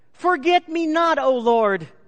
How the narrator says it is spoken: a tiny, unnamed blue flower cried out as a flower could yell out

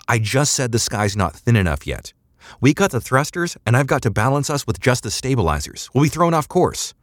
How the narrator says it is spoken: yelled

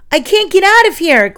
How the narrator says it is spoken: Glenn cried as he struggled in vain to pull himself free

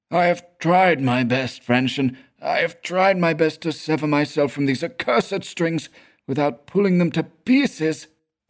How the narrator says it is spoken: pleaded the same shrill, familiar voice

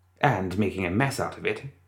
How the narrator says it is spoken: Christina muttered

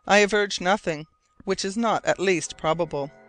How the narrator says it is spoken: answered sharply

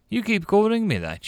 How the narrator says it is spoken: snorted

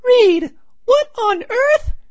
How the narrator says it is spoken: she's surprised, and she blurts out

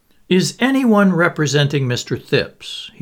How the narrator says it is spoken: he asked irritably

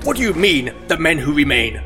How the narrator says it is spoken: spat Krell

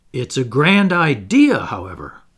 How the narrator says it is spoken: exclaimed

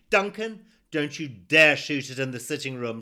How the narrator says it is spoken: shouted

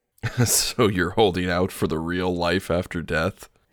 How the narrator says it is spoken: Victor chuckles

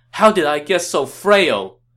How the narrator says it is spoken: He cried out

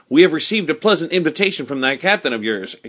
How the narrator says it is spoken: exclaimed

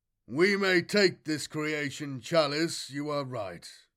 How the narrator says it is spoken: rumbled Sliganian

